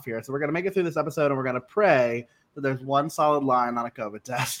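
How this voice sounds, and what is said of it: Congested, slightly sick voice. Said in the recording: “my sinuses are kind of messing up and got a little bit of a cough”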